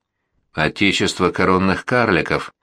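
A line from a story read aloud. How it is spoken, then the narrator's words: Blissful mumble. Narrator (Russian): бормотала она, с блаженством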